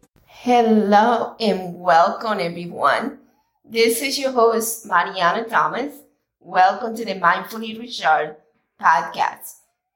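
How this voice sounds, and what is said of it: Raspy, slightly hoarse voice. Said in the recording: “sorry about my voice. It's a little raspy today. And yeah, I have been a little bit under the weather.”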